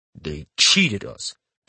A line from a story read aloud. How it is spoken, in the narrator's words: Capstan rumbles, eyes flaring